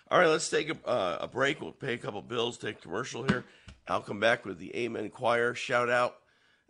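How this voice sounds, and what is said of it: Hoarse, froggy voice. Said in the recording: “my voice is a little froggy”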